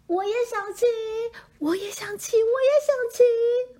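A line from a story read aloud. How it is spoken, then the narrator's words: Loud shouting. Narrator (Chinese): 他们大叫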